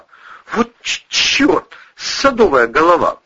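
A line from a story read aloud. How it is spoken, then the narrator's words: Soldier babbling. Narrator (Russian): пролепетал армеец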